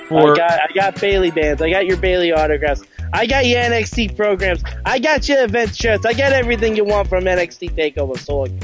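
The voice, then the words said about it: Exaggerated bad Brooklyn accent. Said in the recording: “That's my horrible Brooklyn accent.”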